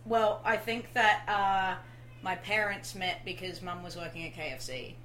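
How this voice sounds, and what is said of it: Australian accent. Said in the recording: “that accent ... So is it true you're Australian?”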